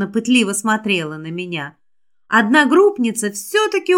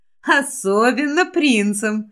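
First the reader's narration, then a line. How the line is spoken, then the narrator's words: Girl giggling. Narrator (Russian): девушка хихикнула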